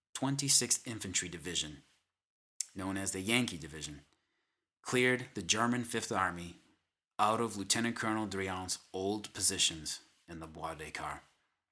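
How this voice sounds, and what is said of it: Boston accent. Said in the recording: “If my accent hasn't come through in previous episodes already, well, I am from the Boston, Massachusetts area.”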